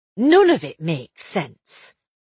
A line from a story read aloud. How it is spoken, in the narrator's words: Isabel said crossly